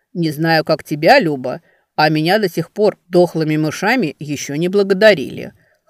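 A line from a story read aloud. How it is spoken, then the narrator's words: Smirking snort. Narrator (Russian): хмыкнул Венка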